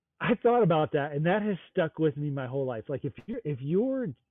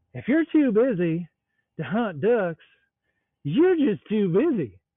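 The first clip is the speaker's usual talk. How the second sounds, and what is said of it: Southern accent imitating Jace Robertson. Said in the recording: “in my best, Southern, Jace Robertson accent”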